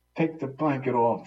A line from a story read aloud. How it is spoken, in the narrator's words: she screams